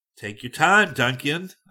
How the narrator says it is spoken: I remarked impatiently

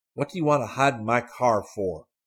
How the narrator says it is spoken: said angrily

